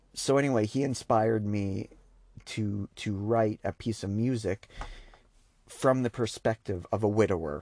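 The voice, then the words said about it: Choked-up, emotional voice. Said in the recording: “I'm getting a little bit choked up now as I talk about it, if you notice the change in my voice”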